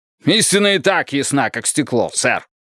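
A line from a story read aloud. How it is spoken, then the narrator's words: Snapping. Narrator (Russian): огрызнулся Бидуэлл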